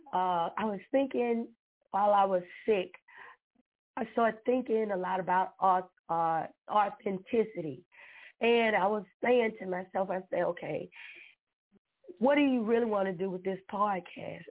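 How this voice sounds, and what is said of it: Slightly hoarse voice. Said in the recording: “I'm a little hoarse tonight because I just came out of something. So I'm a little hoarse”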